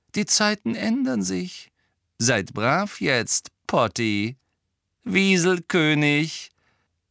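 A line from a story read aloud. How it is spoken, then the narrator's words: Hearty laughter. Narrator (German): Er lachte aus vollem Herzen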